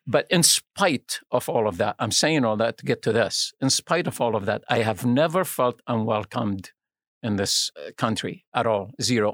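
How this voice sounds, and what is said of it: Speaks with a foreign accent. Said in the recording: “I used my accent, me being different”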